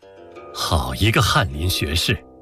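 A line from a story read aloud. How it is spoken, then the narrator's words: Sincere admiring praise. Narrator (Chinese): 真诚地赞叹李煜说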